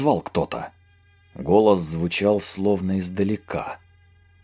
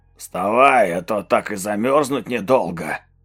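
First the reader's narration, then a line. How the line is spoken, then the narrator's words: Hoarse wheeze. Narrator (Russian): Просипел бомж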